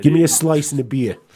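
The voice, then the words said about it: Exaggerated New York accent. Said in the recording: “my accent's going to come back right now ... oh, you just must have watched the New York cop show again.”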